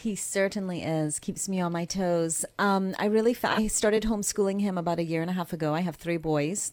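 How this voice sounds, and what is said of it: Barbadian accent. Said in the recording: “Barbados, hence the accent.”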